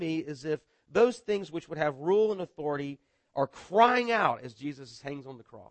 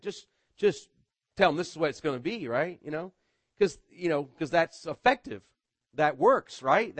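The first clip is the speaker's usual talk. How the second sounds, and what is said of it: Sarcastic tone. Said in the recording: “I'm being sarcastic.”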